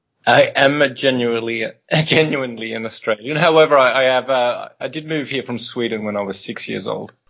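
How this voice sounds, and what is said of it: Posh accent. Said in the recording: “your posh accent”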